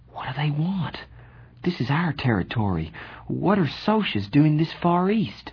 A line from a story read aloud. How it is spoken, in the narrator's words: I muttered